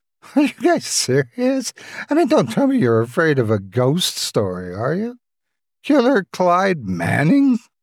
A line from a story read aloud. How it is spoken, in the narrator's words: She chuckled in sarcasm